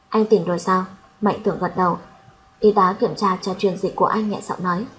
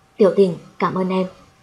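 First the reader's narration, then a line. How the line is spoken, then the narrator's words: Hoarse voice. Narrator (Vietnamese): Mạnh Tưởng giọng khàn khàn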